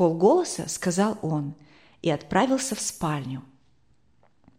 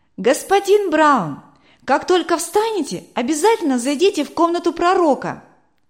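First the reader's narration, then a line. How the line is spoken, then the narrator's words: Shouting through a closed door. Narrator (Russian): крикнул Матфей, не открывая дверь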